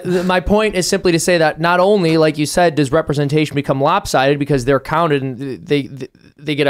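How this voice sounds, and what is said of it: Usual voice. Nothing is said of it.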